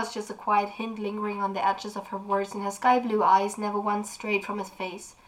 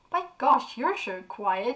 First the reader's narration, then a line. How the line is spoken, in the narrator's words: snorted